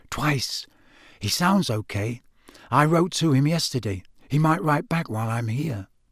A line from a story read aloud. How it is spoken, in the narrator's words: said Harry softly